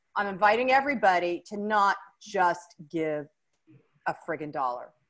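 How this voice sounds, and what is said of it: Stern, firm mom voice. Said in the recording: “I'm using my very strong mom voice”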